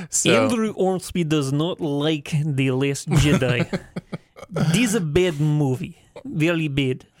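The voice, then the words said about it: Very good put-on Russian accent. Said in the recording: “That was possibly the best Russian accent I've ever heard”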